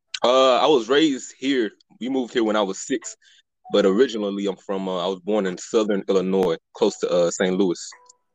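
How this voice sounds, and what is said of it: Northern US accent, not Southern. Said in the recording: “I hear the accent. The accent is definitely there. Definitely, yeah, not from the South. ... you sound like a damn Yankee ... the accent is still there ... do not sound like from down south”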